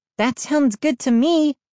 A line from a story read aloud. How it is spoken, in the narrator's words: Mindy exclaimed